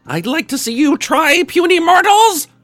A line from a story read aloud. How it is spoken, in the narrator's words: roared another one of his heads